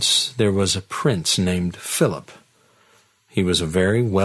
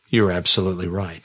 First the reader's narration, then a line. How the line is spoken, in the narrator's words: replied